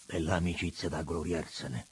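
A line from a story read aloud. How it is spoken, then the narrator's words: Grumbling. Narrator (Italian): brontolò il Laurentano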